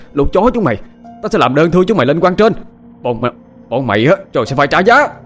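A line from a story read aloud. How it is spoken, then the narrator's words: Harsh, straining. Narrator (Vietnamese): Anh cố chồm lên nói với giọng điệu gay gắt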